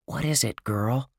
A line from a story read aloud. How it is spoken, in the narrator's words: he whispered